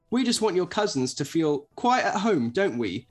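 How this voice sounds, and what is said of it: Put-on British accent. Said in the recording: “he apologises in his best British accent.”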